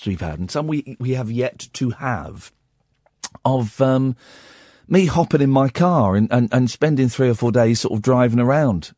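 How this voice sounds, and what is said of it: Hoarse, fading voice. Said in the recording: “as you can hear, I'm losing my voice.”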